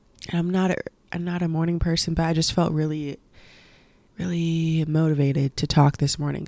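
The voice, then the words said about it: Slightly hoarse voice. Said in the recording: “my voice is a little like, what's the word, hoarse,”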